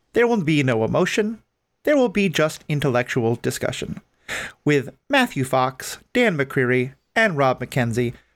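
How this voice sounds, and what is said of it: Flat, emotionless robot voice. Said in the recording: “robot voice ... This is ... your host, with both inflection and emotion in my voice”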